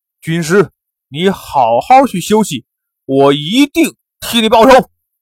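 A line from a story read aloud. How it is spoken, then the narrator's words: Furious. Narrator (Chinese): 兀术大怒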